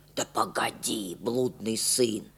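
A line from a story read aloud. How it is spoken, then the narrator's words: Grandmother's persuasive whisper. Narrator (Russian): убеждала бабушка почему-то шепотом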